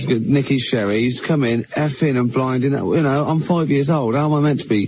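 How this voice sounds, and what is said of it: Strong old Berkshire accent. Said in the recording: “You got a real old Berkshire accent.”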